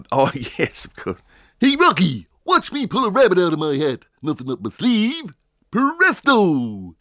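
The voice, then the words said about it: Cartoon moose character voice. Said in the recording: “do the Bullwinkle voice, I mean really do the Bullwinkle voice”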